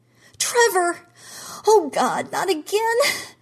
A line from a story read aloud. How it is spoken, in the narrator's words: Gene screamed